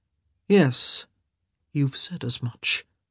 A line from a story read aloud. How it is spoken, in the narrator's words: His expression was remarkably bland as he murmured